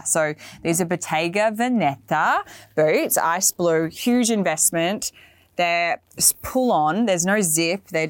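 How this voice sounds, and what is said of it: Australian accent. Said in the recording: “I know that I have an Australian accent”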